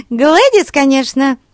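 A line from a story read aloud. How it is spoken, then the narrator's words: Giggling. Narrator (Russian): хихикнула Глэд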